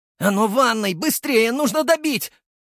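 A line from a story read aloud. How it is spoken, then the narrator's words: Frantic yelling. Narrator (Russian): вопил Артем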